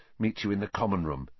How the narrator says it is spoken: Harry muttered

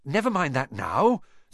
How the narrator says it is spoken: said Harry, breathlessly

